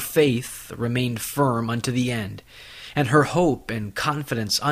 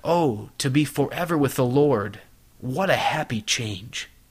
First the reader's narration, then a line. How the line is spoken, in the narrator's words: she broke out into a rapture and exclaimed